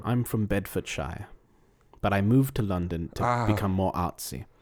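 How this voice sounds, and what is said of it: Slight English accent. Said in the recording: “So you're from London. You have a bit of an accent.”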